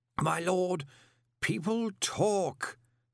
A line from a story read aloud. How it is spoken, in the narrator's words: said Slant wearily